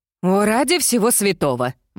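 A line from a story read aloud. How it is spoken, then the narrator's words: Exclaimed. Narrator (Russian): воскликнула Мирабель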